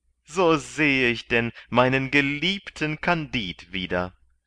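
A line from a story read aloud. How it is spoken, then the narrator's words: Exclaimed. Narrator (German): rief Pangloss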